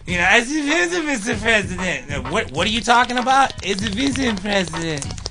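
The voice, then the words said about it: Imitates another person's voice. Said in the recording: “keep doing her voice.”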